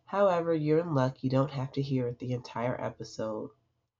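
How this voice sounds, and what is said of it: Congested, stuffy-nosed voice. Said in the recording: “As you can hear in my voice, I'm a little congested”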